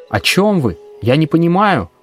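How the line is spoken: Shouted reply. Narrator (Russian): прокричал я в ответ

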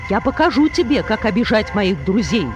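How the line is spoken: Angry shout. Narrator (Russian): рассердившись, крикнул Кришна

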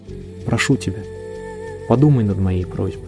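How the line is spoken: Whisper. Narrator (Russian): Ирен прошептала

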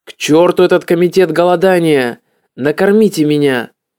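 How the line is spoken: Angry growl. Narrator (Russian): когда Говинда Даси сообщила ему о новых ограничениях в диете, он прорычал

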